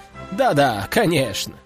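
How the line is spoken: Chuckling. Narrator (Russian): хохотнул тот

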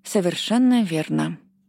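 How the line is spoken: Calm reply. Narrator (Russian): спокойно ответила, решив не вестись на провокации

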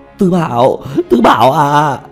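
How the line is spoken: Desperate wailing cries. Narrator (Vietnamese): kêu gào

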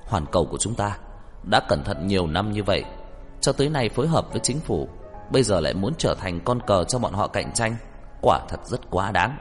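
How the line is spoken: Angry, agitated. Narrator (Vietnamese): Trang Tinh Vũ tức giận, kích động nói

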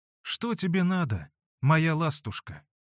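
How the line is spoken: Soft, tender question. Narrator (Russian): мягким голосом ласково спросила ее Манефа

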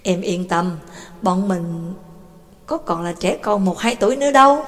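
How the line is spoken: Boy, mature, smiling. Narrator (Vietnamese): Thằng bé liền ra vẻ chín chắn, mỉm cười nói

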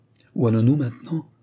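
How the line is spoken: More trembling voice. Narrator (French): redemanda le même cocher d'une voix plus tremblante encore

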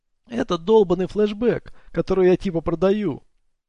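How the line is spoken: Whining. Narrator (Russian): проскулил Дилрой

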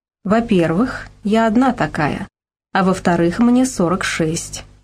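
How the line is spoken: Calm. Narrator (Russian): спокойно ответила я

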